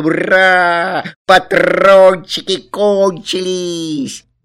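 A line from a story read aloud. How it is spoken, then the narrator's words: Laughing and shouting. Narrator (Russian): Некоторые зрители засмеялись, а некоторые закричали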